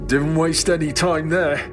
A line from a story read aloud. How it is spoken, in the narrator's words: I said, the sound rumbling through my now thick nose